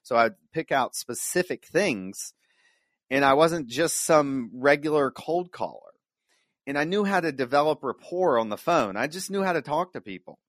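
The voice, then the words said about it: Southern American accent. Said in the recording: “maybe it's the southern accent”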